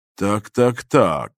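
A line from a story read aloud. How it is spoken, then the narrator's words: Muttered to himself, Russian. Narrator (Russian): пробормотал почти про себя и по-русски господин Дрон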